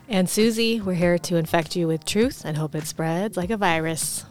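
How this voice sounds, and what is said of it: Sexy, smoky low voice. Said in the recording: “sexy voice. ... Smoky voice.”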